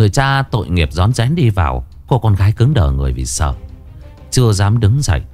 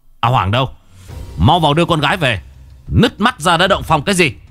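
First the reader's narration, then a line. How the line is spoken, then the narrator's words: Loud shout. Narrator (Vietnamese): Đinh Văn Lâm quát to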